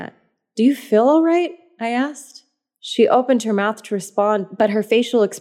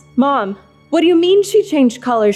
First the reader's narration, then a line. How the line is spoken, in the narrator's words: She shouted at me